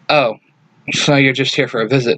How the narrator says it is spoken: Jason says with a heavy sigh

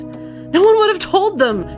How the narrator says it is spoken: she cried

